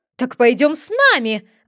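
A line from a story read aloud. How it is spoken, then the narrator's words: Queen's shriek. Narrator (Russian): взвизгнула королева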